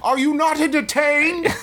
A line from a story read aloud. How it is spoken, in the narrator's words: the kid … scream